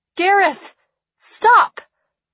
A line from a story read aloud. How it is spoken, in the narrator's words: I shout into the void